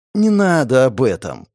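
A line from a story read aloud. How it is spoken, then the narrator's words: Pleading. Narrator (Russian): взмолился напалм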